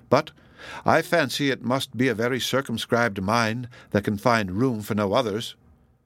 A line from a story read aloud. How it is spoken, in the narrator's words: answered coldly